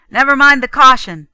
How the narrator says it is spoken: Ben called out

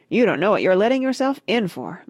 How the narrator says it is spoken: blurted out Tucker Mouse through a mouthful of bacon, lettuce, and tomato sandwich

